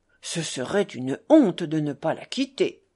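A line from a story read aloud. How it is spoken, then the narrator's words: Official's exclamation. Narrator (French): s'exclama le fonctionnaire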